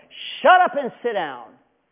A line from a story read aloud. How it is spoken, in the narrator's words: They're yelling back at him